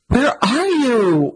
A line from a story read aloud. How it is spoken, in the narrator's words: Mira growled into her watch excitedly